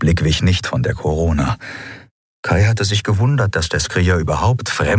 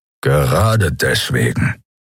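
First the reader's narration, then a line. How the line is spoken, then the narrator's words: Growled. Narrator (German): knurrte Keru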